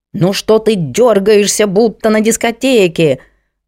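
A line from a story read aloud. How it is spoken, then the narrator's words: Indignant bear shouting. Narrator (Russian): возмущенно заорал медведь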